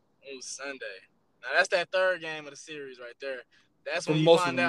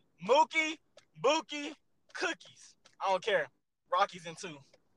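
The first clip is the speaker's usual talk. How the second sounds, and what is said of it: Imitates another person's voice. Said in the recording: “my best Shannon Sharp impression.”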